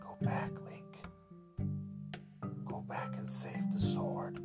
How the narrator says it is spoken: she whispered

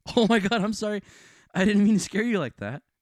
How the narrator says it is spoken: said while almost laughing at me

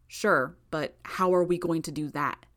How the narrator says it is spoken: Gru replied

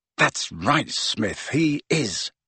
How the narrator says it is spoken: muttered Harry, grinning to himself

